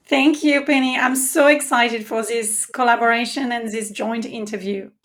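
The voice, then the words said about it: French accent. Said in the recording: “when she says it with her French accent”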